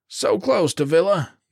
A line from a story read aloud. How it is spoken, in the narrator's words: the corporal cried